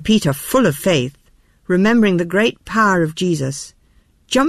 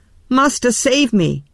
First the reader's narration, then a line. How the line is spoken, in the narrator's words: cried